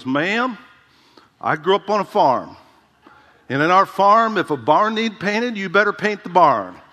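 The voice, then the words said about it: Southern accent impression of J. Vernon McGee. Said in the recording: “J. Vernon McGee, one of my favorite preachers from time past, he had this southern accent.”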